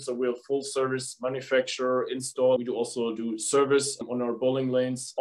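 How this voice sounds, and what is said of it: German accent. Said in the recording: “as you can probably hear from my accent, from Germany. So I'm a German.”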